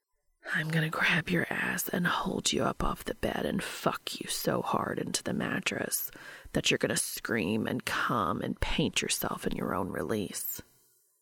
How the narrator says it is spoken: Breath tickled Dean's ear as Cass whispered

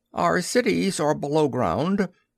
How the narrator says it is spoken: he quavered

